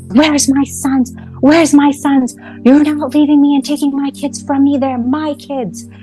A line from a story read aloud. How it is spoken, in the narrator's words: he's screaming on top of his lungs